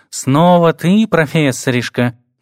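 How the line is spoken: Purring. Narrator (Russian): мурлыкнул он

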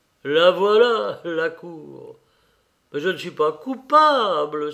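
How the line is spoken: Angry exclamation. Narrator (French): s'écria-t-il avec colère

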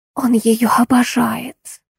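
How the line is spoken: Whisper. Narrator (Russian): прошептала Ремнева

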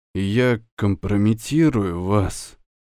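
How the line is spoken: Dejected voice. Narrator (Russian): упавшим голосом сказал

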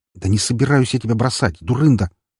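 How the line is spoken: Hissed. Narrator (Russian): прошипел

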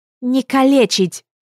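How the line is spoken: Sudden shout. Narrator (Russian): вдруг крикнула Атана

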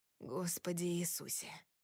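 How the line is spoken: Muffled breathy male exhale. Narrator (Russian): выдохнул Кори мне в волосы

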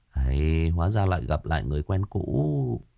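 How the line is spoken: Amused mutter. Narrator (Vietnamese): khóe miệng của đại ca Dương Tài nhếch lên một nụ cười, đoạn gã lẩm bẩm

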